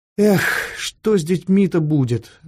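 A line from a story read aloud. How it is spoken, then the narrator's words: Sighing. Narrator (Russian): вздохнул Фондорин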